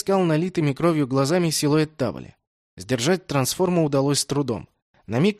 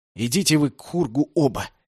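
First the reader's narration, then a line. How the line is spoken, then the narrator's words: Hissing. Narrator (Russian): прошипел я в ответ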